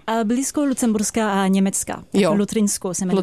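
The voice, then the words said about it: French accent in Czech. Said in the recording (Czech): “když slyšíte přizvuk, tak to jsem já ... to není srandovní přízvuk nahraný, ale to je opravdu žena z Francie”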